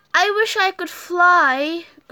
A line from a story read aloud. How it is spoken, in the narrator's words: groaned Spotty